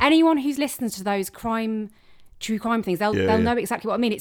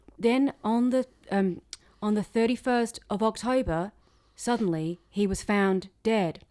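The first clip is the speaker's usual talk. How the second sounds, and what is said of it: Monotone true-crime narrator impression. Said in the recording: “I couldn't get past the narrator's voice... I'm trying to try and do an impression... It's a really monotone voice about something really sinister”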